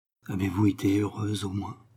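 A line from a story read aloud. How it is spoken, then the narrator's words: Quiet question. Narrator (French): questionna tout bas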